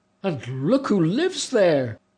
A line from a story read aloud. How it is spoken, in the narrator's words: another spy cried out